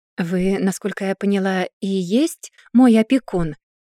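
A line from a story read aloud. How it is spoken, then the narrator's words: Plain. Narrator (Russian): спросила она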